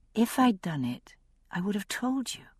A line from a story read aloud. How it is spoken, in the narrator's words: I said softly